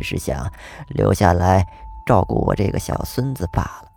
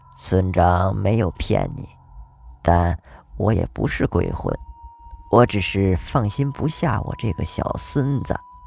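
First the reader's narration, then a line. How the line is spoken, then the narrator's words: Old woman, faint smile. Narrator (Chinese): 老奶奶略微浮现出了一丝笑意，说道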